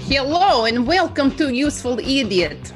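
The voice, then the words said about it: Put-on Russian accent. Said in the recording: “I love your Russian accent... Right on the money. It's awesome... the hello is very good”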